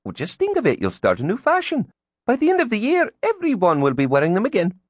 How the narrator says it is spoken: Elizabeth chirped

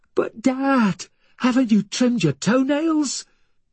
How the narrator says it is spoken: he continued to shriek

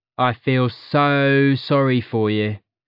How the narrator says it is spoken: drawled Priya

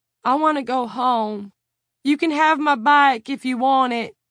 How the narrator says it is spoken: Kent whined

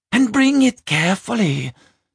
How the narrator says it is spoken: Skodi cried

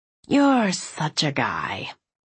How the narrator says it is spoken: I muttered

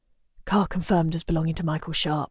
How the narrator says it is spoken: he whispers

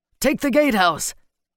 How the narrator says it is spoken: he shouted

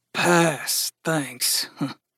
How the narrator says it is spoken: muttered Gus

